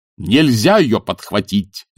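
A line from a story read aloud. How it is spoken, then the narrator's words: Barked. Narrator (Russian): рявкнул декан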